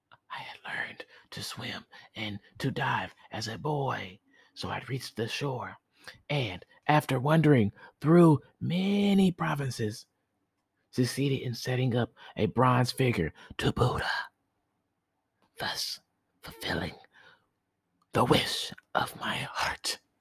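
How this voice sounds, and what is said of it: Whispering. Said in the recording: “I'm going to stop whispering”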